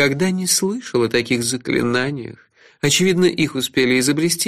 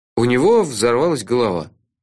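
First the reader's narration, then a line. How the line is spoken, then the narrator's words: Gloomy explanation. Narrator (Russian): мрачно объяснил я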